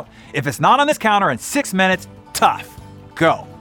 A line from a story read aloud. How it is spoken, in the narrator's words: he'd shout, well, state, but it certainly felt like a shout